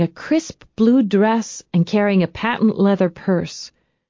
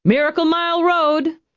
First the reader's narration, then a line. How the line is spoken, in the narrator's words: the bus driver called out